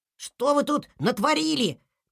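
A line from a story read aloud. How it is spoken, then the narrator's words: Distant squeaking in fog. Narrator (Russian): пропищали где-то в тумане лемминги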